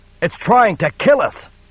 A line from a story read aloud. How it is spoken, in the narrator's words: Zaya shouted